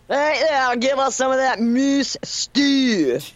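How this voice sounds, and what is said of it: Put-on Scottish accent. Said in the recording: “You have to say it with a Scottish accent.”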